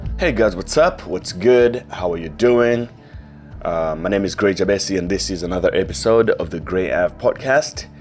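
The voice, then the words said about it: Voice affected by flu. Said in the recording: “I'm still down with flu ... My voice isn't at its peak anymore. It's been affected”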